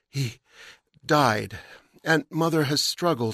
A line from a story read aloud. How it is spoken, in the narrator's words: panted